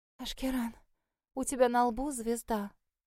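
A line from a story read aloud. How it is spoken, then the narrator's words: Hysterical terrified hoarse whisper. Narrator (Russian): Истерично просипела перепуганная до нельзя Эльдира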